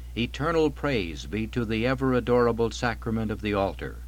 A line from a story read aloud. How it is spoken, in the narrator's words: Thrice he cried with a loud voice